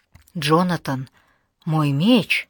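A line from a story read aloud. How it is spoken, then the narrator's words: Stammering. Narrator (Russian): запинаясь, проговорила Алана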